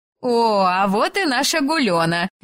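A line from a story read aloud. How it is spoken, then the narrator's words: Cheerful announcement. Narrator (Russian): весело известила соседка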